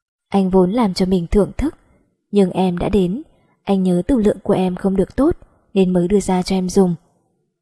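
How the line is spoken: Soft chuckle from behind. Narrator (Vietnamese): Sau lưng truyền đến tiếng cười khẽ của Diệp Vũ

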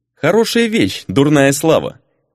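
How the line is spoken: Laughing. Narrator (Russian): хохотнула Рейна

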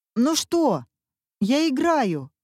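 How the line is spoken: Shouting while running. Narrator (Russian): кричал он, пока бежал

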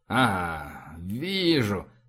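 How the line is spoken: Mutter. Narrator (Russian): пробормотал он

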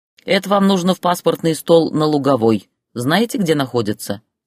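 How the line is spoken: Plain. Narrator (Russian): спросила работница жилконторы

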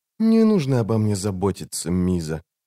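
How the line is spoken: Quiet. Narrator (Russian): негромко сказала

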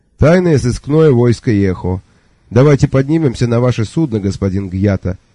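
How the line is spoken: Dry, curt tone. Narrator (Russian): не менее сухо сказал сэр Кофа Йох

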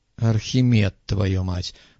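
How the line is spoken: Grumbling. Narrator (Russian): проворчал Муха

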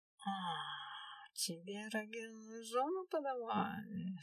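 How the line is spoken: Hissed through teeth. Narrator (Russian): сквозь зубы прошипела одна из женщин

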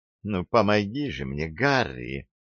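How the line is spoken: Purring female voice. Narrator (Russian): промурлыкала она

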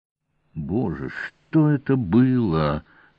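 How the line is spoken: Groaning. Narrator (Russian): простонал Певер

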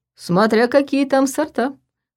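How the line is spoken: Teasing chuckle. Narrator (Russian): хохотнул Ваня, просто чтобы его подразнить

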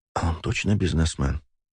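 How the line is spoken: Whispered. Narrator (Russian): прошептала

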